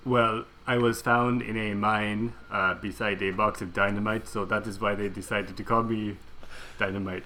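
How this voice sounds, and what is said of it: Put-on German accent. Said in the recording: “You clearly sound German.”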